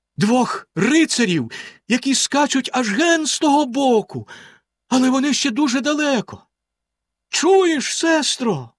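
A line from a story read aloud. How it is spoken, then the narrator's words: Exclaiming. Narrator (Ukrainian): вигукнула вона за мить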